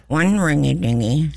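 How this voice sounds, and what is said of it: Impersonates comedic telephone-operator character. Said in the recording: “your best Ernestine impersonation ... See, you did that well.”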